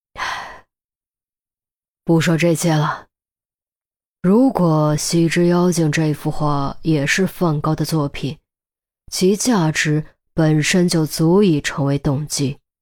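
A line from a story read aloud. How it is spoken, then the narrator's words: Sighing, reflective. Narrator (Chinese): 孔玉德忽有感慨，叹了口气，接着说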